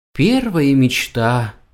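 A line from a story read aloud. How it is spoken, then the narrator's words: Sighing cat. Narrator (Russian): вздохнул кот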